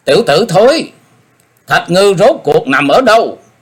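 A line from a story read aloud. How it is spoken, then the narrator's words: Shout. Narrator (Vietnamese): Ông ta quát lên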